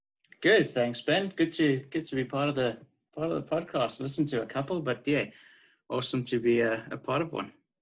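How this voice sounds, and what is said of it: South African accent. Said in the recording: “you're uh, South African ... beautiful accent”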